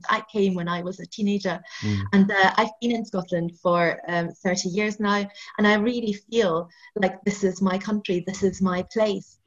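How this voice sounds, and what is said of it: Non-Scottish immigrant accent. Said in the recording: “I'm an immigrant to Scotland. You probably know that by my accent.”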